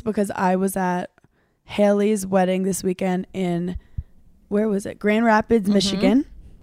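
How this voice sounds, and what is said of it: Hoarse, strained, losing voice. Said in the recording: “I love when I lose my voice. ... I've lost my voice”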